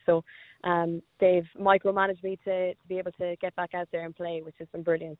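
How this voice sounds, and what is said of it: Very quick speech with accent. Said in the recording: “you do speak very quick with your accent.”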